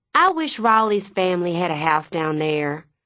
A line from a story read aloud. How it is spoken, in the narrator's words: Miss Leafolt sigh